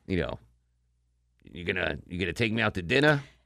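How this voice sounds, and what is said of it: Gruff, harsh New York accent. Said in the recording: “you hear the Yankee accents, like, well, you know, it's that gruff, like, Yankee women... it's like that harsh thing”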